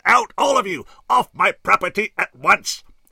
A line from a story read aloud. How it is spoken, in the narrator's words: Carrington … he roared